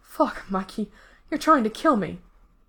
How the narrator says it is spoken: Ray has to break the kiss to breathe, panting

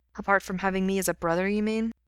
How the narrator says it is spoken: Gerard says flatly

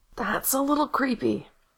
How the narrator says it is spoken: Gerard rasped

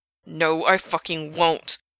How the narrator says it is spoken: Frank growled

